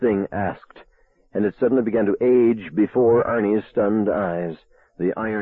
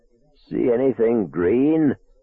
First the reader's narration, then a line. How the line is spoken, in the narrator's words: this octogenarian Arnie Cunningham croaked